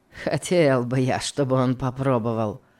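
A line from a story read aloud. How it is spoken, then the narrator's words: Said with a malicious smirk. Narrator (Russian): сказал Легри, злобно усмехнувшись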